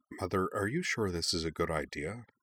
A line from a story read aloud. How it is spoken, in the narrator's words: wondered quietly